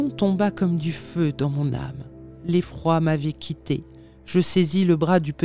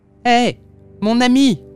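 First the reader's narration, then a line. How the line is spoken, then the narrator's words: Shout. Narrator (French): lui criai-je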